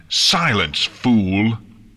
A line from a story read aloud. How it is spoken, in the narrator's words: Nightmare Moon bellowed